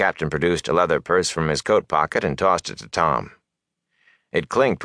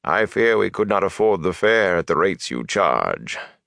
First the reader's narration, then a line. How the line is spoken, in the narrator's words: he added dryly